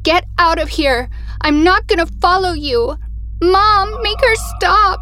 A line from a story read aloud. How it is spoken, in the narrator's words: Amy started crying and screaming